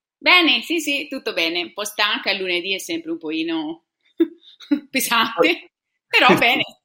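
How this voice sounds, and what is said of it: Tuscan Italian accent. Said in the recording (Italian): “hai un accento stupendo ... Sono toscana ... Sono di Siena.”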